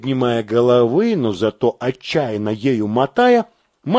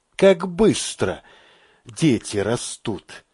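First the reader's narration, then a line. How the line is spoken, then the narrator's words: Sigh. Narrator (Russian): вздохнул Мамед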